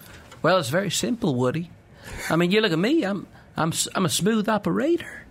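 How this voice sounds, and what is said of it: Imitates another person's voice, Texan accent. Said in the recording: “Matthew McConaughey and Woody Harrelson each discussing why they should be the next James Bond ... that Austin, Texas accent”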